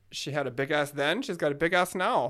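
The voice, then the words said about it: Put-on accent. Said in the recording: “Your accent is wonderful.”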